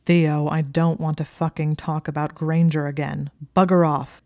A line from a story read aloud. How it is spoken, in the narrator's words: Malfoy snarled from behind a stack of books